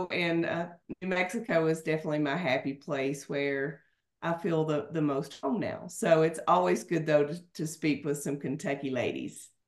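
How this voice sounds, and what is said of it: Southern American Kentucky twang. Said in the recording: “the twang. We understand the southern twang”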